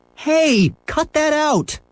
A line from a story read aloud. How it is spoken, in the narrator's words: yelled Henry